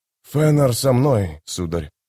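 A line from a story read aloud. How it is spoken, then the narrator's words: Trembling voice. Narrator (Russian): дрожащим голосом ответил Карнадос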